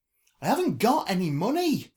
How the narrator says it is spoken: the girl barked

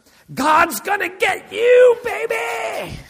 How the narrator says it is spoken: shout out

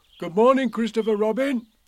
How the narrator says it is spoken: he called out

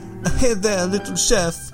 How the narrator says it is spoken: he sobbed

